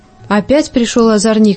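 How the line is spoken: Angry. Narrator (Russian): сердито сказала торговка

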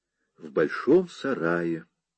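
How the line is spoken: Gentle explanation. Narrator (Russian): мягко пояснила она

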